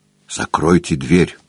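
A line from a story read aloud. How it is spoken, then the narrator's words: Whisper. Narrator (Russian): шепотом сказал он Холлорду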